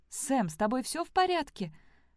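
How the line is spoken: Exclaiming. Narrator (Russian): воскликнула Элли

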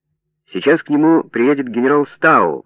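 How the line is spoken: Shouting. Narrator (Russian): крикнул Пол

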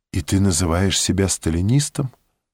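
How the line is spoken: Whisper. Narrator (Russian): он только прошептал

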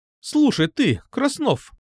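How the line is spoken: Angry exclamation. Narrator (Russian): Зло воскликнула

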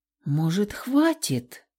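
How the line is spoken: Timid question. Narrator (Russian): Робко спросила

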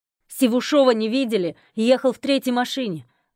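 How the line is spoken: Shouted. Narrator (Russian): Один из солдат прокричал

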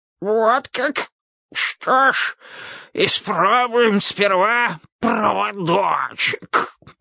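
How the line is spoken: Hoarse rasp. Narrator (Russian): прохрипел король

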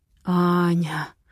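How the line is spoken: Hoarse moan. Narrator (Russian): хрипло стонет Матвей

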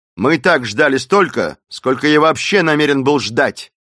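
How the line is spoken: Rude. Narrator (Russian): грубо сказал

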